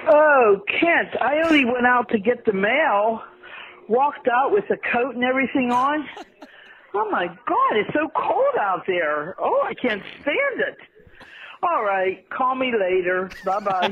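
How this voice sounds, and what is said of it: Pittsburgh accent. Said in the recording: “Pittsburgh accent ... If you're wondering what the Pittsburgh accent ... Here's the Pittsburgh sound as legitimate”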